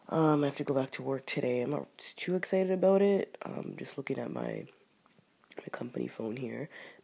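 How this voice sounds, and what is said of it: Sick, groggy voice from a cold. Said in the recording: “I ended up getting sick ... It's just like a cold cough ... you can just tell in my voice that something going on. So I feel groggy.”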